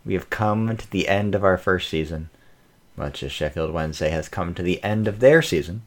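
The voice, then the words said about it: American accent. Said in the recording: “Sheffield Wednesday Opinion with an American accent”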